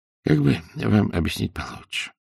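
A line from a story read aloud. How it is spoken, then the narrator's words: Sighing old man. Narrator (Russian): вздохнул старик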